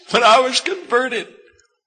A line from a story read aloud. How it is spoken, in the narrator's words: she cried